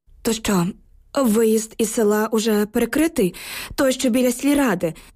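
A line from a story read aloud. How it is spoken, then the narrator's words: Trembling question. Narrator (Ukrainian): запитала я тремтячим голосом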